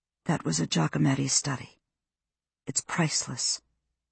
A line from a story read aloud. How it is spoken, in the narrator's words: said quietly